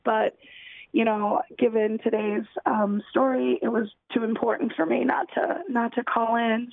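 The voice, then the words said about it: Voice sounds sick. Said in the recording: “I apologize for my voice. I'm still a little sick”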